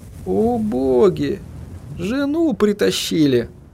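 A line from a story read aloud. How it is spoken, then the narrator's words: Sigh. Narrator (Russian): Вздохнул он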